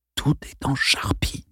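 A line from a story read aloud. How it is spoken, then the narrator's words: Murmured. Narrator (French): murmura Kevin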